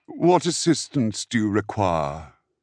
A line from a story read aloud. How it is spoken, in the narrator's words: Vern asked lazily